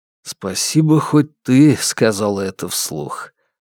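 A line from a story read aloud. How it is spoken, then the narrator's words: Exhaled breathily. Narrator (Russian): выдохнул Крейг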